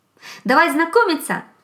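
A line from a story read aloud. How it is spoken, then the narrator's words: Emboldened hare shouting. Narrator (Russian): закричал осмелевший заяц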